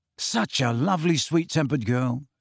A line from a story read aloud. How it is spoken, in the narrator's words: said Ron very quietly